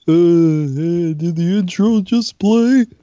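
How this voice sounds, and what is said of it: Imitates another person's voice. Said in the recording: “Do another one. ... Oh, uncanny.”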